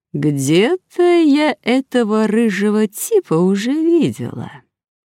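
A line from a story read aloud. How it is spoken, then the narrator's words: Thoughtful drawl. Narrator (Russian): задумчиво протянула она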